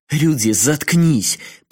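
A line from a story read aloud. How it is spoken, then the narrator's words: Muffled growl. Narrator (Russian): Прикрыв трубку рукой, прорычала Асакава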